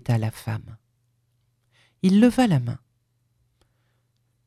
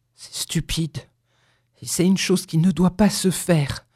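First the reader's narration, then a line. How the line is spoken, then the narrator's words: Stammering. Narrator (French): balbutia-t-il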